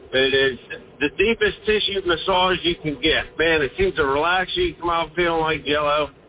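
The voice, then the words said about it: Pittsburgh accent. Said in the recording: “I love that accent, by the way. ... Yeah, Pittsburgh accent.”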